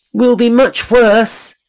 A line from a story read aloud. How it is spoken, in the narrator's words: the children cried in despair